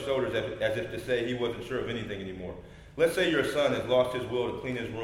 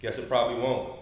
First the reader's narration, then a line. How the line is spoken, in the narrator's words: Coach said